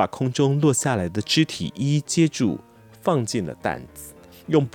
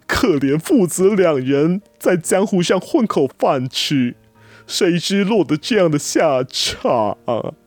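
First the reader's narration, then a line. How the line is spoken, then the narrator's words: Old man's heartbroken wailing. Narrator (Chinese): 那老者撕心裂肺的嚎哭声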